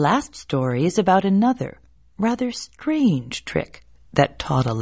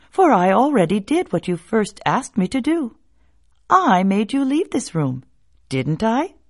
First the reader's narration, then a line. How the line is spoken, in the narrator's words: said the boy with a laugh